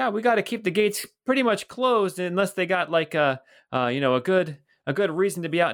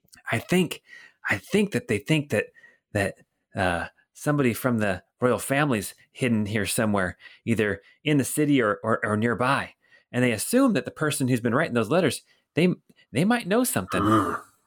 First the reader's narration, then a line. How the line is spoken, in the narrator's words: conspiratorially kind of leans in and whispers